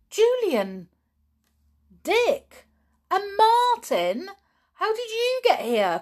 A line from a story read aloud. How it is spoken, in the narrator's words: cried George